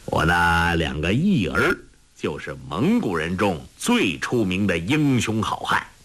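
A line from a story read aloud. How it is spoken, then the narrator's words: Laughing. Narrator (Chinese): 王罕笑道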